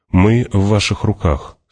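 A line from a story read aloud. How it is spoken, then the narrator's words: Said calmly. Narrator (Russian): спокойно сказал он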